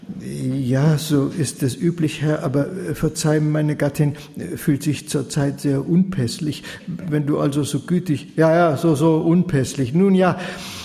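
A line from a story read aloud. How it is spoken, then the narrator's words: Stuttering. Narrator (German): Potiphar wurde noch bleicher im Gesicht, als er ohnehin schon war, und stotterte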